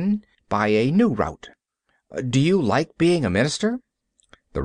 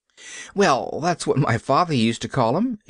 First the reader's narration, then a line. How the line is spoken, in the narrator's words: she laughed